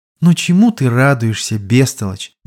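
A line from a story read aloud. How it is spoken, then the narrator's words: Sad smiling princess. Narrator (Russian): грустно улыбнулась княгиня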